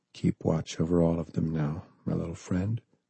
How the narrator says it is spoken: he whispered, eyes clouding with tears as he finally let go of the pain

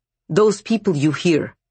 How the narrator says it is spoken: Varvara snapped

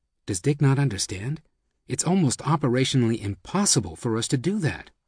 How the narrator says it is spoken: Tonucci, however, whispered

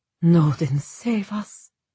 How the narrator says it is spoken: Evrain breathed

